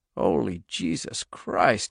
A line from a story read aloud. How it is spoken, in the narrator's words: said hoarsely